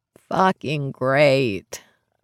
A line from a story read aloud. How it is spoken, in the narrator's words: I groan